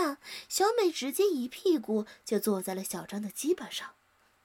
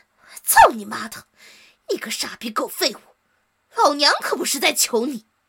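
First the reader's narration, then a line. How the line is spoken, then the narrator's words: Furious roar. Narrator (Chinese): 怒不可歇地咆哮着说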